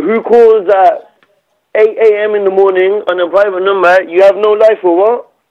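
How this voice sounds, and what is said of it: Speaks with a noticeable accent. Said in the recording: “You got a cool accent.”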